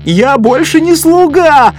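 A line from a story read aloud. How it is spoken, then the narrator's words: Yelling from a tree. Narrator (Russian): орал кто-то с акации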